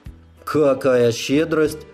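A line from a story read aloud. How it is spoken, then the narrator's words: Grumble. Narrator (Russian): проворчал я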